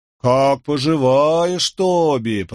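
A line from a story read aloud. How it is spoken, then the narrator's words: Drawling imitation. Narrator (Russian): протянул второй, подражая брату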